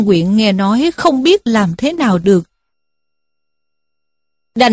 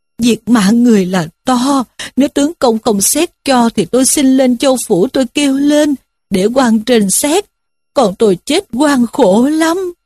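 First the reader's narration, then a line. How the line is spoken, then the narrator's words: Wailing, tearful pleading. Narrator (Vietnamese): Diêm Bà thấy quan truyền vậy thì rên rỉ khóc lóc mà rằng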